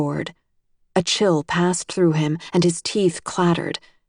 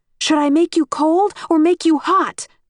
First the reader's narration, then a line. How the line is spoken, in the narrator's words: I shouted